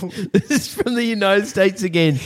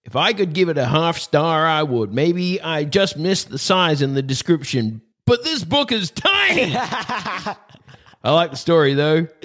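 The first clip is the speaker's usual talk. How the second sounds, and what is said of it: Put-on American accent. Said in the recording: “I'll do an American accent.”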